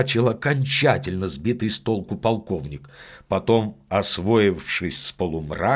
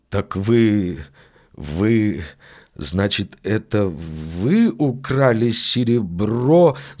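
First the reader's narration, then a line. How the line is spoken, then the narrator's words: Stammering, bewildered question. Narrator (Russian): запинаясь, спросил мистер Одли, с недоумением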